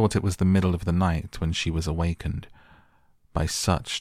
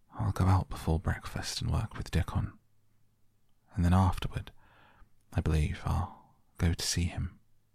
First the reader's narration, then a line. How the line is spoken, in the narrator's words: murmured to herself